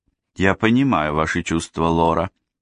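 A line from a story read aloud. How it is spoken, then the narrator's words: Plain. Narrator (Russian): сказала Бекки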